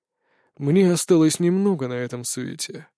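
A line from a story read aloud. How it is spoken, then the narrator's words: Sigh. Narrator (Russian): вздохнул Анубис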